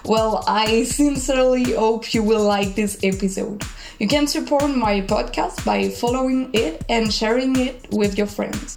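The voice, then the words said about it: French accent in English. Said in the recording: “I'm French and this can explain my accent.”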